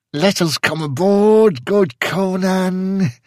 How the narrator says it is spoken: whined a red-sashed Samorian, glancing fearfully

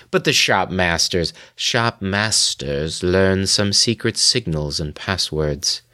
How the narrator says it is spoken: Meade said in his soft, dry voice

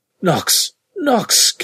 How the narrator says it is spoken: came a choking cry

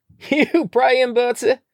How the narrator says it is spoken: called out

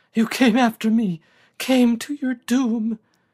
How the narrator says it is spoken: she uttered in a sobbing cry

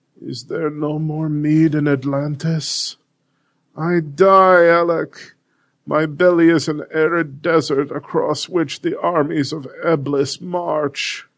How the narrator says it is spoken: Sadly muttered

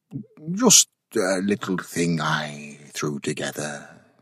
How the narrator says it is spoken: he murmured indifferently

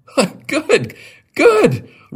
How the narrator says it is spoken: Roger cried

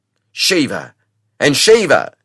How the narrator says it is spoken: cried

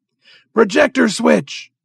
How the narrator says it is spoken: roared the doctor, his heavy voice sounding over the tumult

